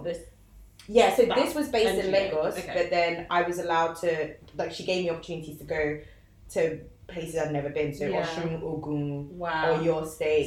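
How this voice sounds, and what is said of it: British accent. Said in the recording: “my accent and the fact that I come from the UK”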